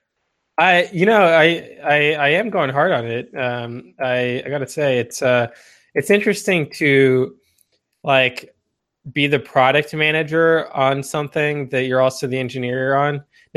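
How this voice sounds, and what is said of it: Congested, nasal voice. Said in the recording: “I'm a little bit congested today, so if my voice is a little different”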